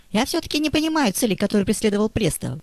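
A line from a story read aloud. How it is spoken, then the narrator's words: Squeaky. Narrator (Russian): пропищал прокурор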